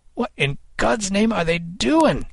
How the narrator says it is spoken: Kid cried

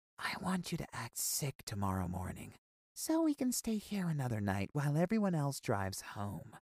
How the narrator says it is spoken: Miss Lopez came to my bed and whispered

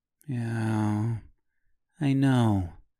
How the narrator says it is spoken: she replied in a faux sympathetic voice

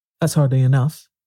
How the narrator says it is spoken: he said anxiously

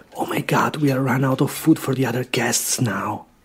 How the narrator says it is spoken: I heard the host whisper in his wife's ear

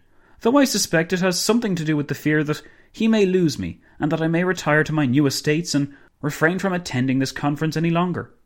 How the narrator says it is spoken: Dinglebrush exclaimed

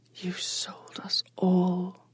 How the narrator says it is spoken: Onali whispered

